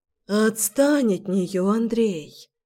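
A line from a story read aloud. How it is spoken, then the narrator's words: Tired. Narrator (Russian): сказала Надя устало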